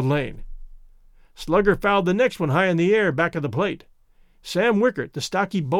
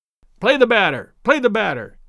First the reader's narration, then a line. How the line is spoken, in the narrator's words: sharply called Daddy